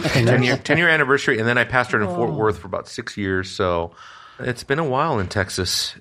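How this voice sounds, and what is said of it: Italian accent. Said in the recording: “your accent hasn't changed ... It's still Italian. It's still Italian. ... Italian with a Swedish Romanian twist.”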